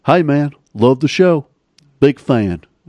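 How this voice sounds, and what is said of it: Put-on Southern US accent. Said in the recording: “The accent's pretty good, too. That's a pretty good accent of the South, though.”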